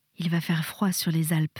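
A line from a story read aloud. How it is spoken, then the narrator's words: Murmuring. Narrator (French): murmura Percy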